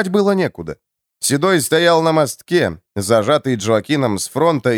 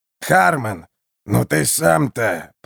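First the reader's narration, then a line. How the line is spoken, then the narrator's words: Old man grumbling. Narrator (Russian): проворчал старик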